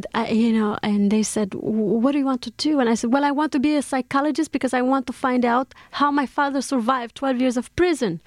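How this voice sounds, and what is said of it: Strong foreign accent. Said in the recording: “my accent must have been so strong. I mean, even now it's very strong.”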